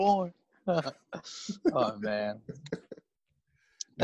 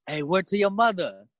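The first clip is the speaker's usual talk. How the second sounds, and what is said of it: Put-on New York accent. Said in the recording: “So are they trying to do a New York accent?”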